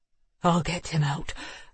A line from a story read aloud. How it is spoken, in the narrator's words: Neil said, his voice hoarse from the smoke